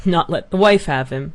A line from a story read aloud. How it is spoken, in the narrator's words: said the old man, and laughed